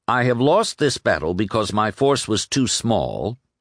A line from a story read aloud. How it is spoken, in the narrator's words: saying flatly